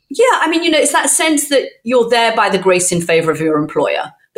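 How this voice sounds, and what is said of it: British accent. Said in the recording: “I speak the way I do. I mean, it must be that British accent”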